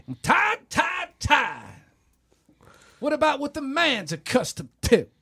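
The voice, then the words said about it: Imitates another person's voice. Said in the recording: “pretty killer Chris Rock impersonation there, man. It was almost like he was in the room with us.”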